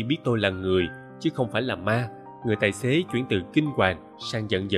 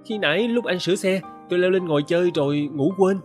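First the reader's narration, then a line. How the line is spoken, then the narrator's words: Stammering. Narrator (Vietnamese): Tôi ấp úng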